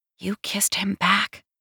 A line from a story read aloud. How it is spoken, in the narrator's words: my mind whispers